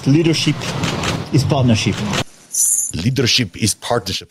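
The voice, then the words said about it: Deliberately bad French accent. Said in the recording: “It's a terrible French accent”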